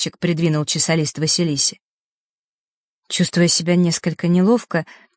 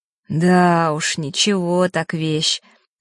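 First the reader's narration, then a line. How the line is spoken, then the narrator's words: Envious sighing agreement. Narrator (Russian): завистливо вздохнув, поддакнул Ник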